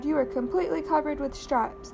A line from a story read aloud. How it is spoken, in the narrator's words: cried